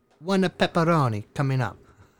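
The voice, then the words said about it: Weak put-on Italian accent. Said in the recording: “this was an authentic accent. I know my accent does no justice whatsoever ... He was Italian as fuck.”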